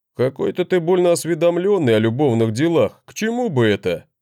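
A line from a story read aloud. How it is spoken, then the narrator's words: Brother's skeptical snort. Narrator (Russian): хмыкнул брат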